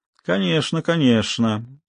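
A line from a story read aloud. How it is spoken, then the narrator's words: Sinister purr. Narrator (Russian): зловеще промурлыкал Левертов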